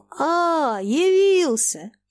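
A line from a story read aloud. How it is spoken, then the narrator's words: Joyful shout. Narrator (Russian): при выходе сына он радостно крикнул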